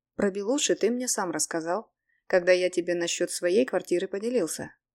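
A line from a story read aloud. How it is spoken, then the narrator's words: Plain. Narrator (Russian): ответил я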